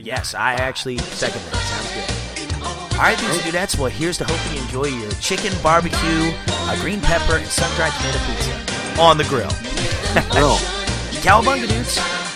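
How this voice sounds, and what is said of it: Strained voice, struggling to talk. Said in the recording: “Sorry for my voice, man. I've had the crud for like a week and a half ... I can't hardly talk”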